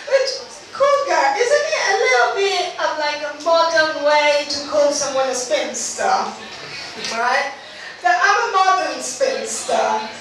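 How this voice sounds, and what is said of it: Italian accent. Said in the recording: “I'm also Italian. ... that's just my accent.”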